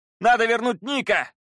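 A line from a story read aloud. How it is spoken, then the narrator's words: Shouting. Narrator (Russian): крикнул Пит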